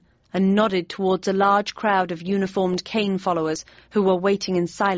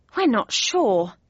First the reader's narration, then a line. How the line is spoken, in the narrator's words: said Joffy sadly